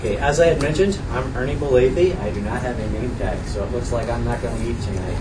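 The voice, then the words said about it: New Jersey accent. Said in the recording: “I do not have an English accent. ... I have a New Jersey accent”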